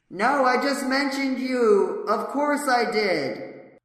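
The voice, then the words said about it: Yelling. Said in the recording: “I'm yelling. Hold on, I'm yelling this one.”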